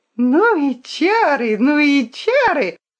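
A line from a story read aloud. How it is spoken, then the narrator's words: Joyful child's squeal. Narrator (Russian): радостно верещал цыганенок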